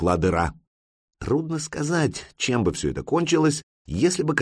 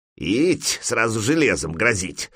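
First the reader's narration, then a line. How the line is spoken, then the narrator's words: Grumpy grumble. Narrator (Russian): сварливо проворчал человек-кубышка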